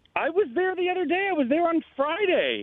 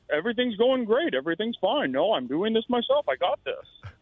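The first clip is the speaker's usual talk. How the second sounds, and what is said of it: Imitates another person's voice. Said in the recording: “is that your impression of Colin?”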